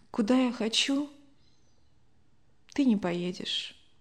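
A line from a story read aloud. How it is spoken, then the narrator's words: Sigh, then quiet. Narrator (Russian): Любовь Александровна вздохнула, тихо произнесла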